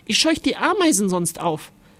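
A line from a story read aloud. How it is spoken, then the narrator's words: Mother calling. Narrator (German): rief Mama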